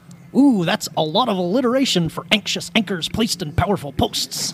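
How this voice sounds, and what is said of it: Imitates another person's voice. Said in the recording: “my Albert Brooks impression”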